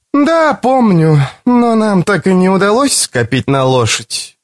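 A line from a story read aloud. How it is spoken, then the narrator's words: Sighing. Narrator (Russian): вздохнула Карен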